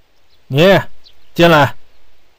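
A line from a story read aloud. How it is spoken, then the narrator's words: Sudden exclaiming call. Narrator (Chinese): 他开始发愁倪百仁的案子，于是突然想起什么似的叫道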